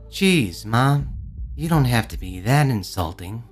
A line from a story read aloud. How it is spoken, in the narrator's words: her son muttered, head hanging a notch lower